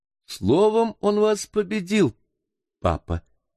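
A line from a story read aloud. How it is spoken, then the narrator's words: Laughing, masking embarrassment, girl. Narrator (Russian): смеясь, воскликнула молодая девушка, как бы желая скрыть легкое замешательство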